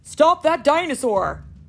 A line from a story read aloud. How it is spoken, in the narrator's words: shouted Chief Burns